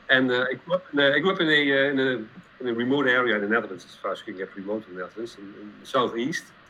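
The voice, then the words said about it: Dutch accent in English. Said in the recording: “I'm from the Netherlands, as you probably can tell from the accent, not from the U.S.”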